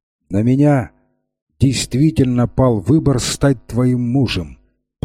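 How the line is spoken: Firm voice. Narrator (Russian): продолжал он твердым голосом

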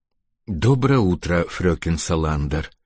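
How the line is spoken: Breathed out. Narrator (Russian): выдохнул он

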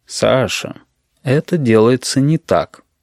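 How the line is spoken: Gentle. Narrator (Russian): ласково сказал Горбун

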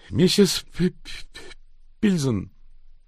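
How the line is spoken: Forced out with effort. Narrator (Russian): через силу выдавил Изидор

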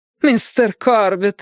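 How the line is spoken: Exclamation. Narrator (Russian): воскликнула она

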